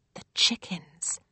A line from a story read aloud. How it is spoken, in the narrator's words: Rose whispers back